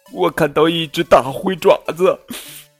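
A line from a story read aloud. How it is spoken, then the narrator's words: Sobbing. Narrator (Chinese): 卡罗莉抽泣着说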